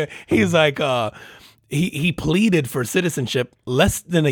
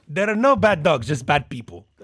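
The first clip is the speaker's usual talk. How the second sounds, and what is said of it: Poor put-on Mexican accent. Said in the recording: “I said it like a Mexican ... You sound like the dog whisperer ... That was a horrible Mexican accent.”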